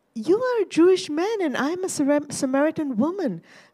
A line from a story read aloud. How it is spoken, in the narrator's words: said with a laugh, wary of meeting his eyes